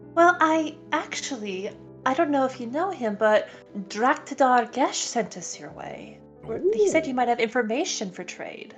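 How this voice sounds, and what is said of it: Put-on character accent. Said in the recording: “I like that accent.”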